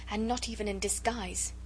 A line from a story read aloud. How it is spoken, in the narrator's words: she murmured